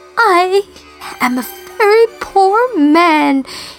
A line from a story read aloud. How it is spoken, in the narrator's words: he sobbed